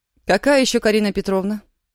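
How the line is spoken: Stern bark into phone. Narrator (Russian): сурово гаркнула в трубку Аня

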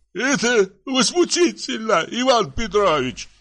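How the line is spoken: Tearful voice. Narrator (Russian): заговорил плачущим голосом Грохольский

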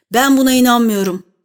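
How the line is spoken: Plain. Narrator (Turkish): dedi

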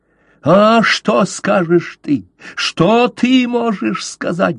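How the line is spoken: Shrieking. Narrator (Russian): завизжал Каузак

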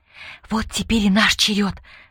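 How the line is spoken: Younger girl's fervent whisper. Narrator (Russian): горячо зашептала младшая

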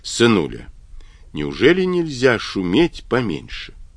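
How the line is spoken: Gentle speech. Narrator (Russian): Авраам мягко говорил

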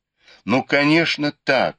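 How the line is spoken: Exclaimed. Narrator (Russian): воскликнул Бао Юй

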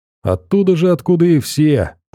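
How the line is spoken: Joyful chuckle, young man. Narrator (Russian): парень радостно хохотнул

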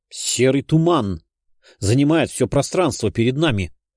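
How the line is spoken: Surprised exclamation. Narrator (Russian): воскликнул я, удивляясь

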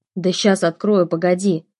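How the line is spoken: Grumbling woman doctor. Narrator (Russian): проворчала докторша

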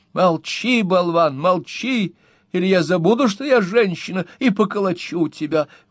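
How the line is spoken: Exclaiming. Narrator (Russian): воскликнула миссис Редль

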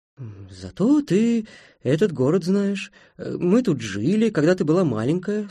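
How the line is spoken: Calm mother's reply. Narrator (Russian): спокойно ответила мать

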